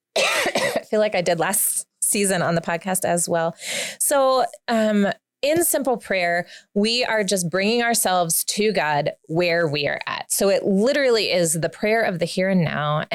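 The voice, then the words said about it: Congested, stuffy voice. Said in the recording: “I have a cold again.”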